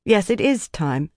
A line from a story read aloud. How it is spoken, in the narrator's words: she said